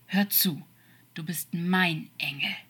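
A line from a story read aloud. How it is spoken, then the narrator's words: Serious growl. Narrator (German): sagte er ernst und knurrend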